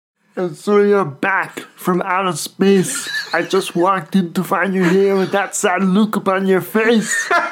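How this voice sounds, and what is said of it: Arnold Schwarzenegger impression, singing. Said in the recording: “do an impression of Arnold Schwarzenegger singing that song?”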